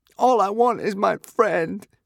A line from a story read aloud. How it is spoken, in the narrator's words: sobbed